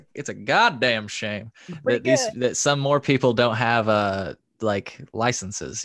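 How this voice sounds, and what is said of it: Put-on Southern accent. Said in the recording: “I'm going to adopt my Southern accent for a second.”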